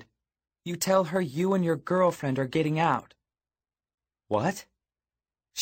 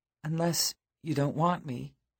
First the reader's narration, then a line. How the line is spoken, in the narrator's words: she said finally, in a small voice